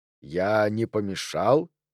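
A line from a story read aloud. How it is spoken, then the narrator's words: Soft yet echoing. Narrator (Russian): спросил он мягко, но голос его раздавался гулко, словно в пещере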